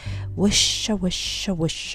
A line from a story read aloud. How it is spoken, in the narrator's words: whispered the leaves